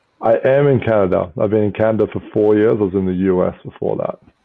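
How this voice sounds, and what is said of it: Australian accent. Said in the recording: “your accent is Australian”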